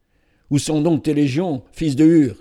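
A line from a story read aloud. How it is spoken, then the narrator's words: Exclaimed. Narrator (French): s'écria Simonide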